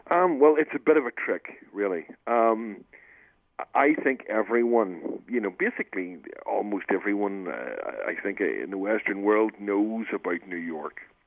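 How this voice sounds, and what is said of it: Slight Northern Irish accent. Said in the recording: “just a slight bit of an accent ... a guy from Northern Ireland”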